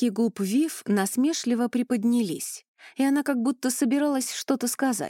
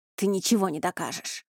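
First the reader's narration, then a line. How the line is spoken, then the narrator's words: Spat out angrily. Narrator (Russian): злобно выплюнул Риан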